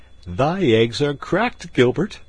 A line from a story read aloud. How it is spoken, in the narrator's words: quoth Robin, laughing